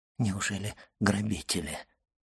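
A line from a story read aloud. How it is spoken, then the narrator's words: Mutter. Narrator (Russian): пробормотал он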